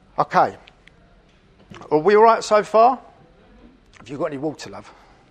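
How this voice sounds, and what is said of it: Strained, failing voice. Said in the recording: “I'm losing my voice. ... So I'm going to start coughing.”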